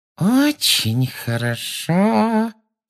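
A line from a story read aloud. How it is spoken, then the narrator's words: Menacing saccharine voice. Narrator (Russian): сказала она своим самым угрожающим приторным голоском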